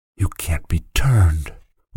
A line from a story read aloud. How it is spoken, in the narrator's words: whispered the boy